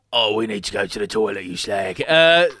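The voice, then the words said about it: Threatening EastEnders accent, Ray Winstone voice. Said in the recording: “in an EastEnders style accent ... my tummy has the voice of Ray Winston ... threatening and controlling aura”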